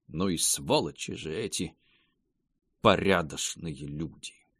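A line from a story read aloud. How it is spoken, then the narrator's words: Angry mutter. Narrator (Russian): злобно пробормотал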